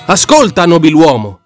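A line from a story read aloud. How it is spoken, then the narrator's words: Tiger roaring. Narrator (Italian): ruggì la tigre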